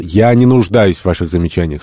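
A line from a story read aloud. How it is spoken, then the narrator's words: Stern. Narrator (Russian): строго сказал Гатерес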